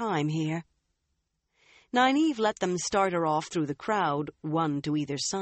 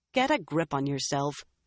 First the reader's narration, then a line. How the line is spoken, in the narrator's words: Nynaeve said firmly